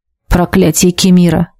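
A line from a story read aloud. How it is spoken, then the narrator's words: Muttered. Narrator (Russian): пробормотала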